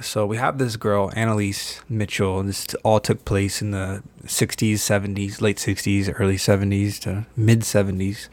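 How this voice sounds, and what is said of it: Smooth, relaxing, low-energy radio voice. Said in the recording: “this is a low energy podcast ... I'm told I have a very, very smooth and relaxing radio voice.”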